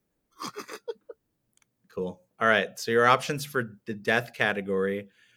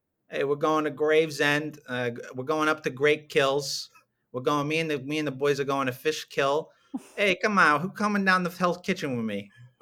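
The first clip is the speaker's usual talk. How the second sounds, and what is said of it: Put-on New York accent. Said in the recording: “Can you say these in a New York accent? ... that's some good stuff there”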